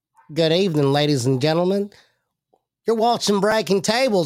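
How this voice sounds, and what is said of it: Put-on Tennessee accent. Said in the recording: “he's got a Tennessee accent”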